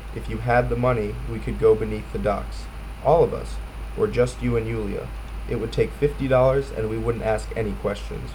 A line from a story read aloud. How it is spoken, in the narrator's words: the woman said evenly